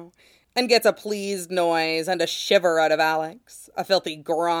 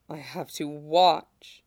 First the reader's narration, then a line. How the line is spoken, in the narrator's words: pants